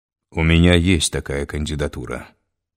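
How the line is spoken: Calm, confident. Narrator (Russian): спокойно и уверенно произнес Стравицкий

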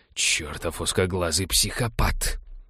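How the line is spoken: Muttering. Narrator (Russian): пробормотал Балфер

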